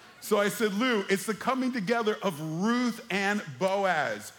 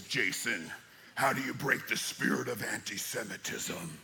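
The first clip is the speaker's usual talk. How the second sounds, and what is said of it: Imitates another person's voice. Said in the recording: “my best Lou Angle impression”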